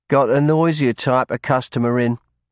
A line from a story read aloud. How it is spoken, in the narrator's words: her husband added gloomily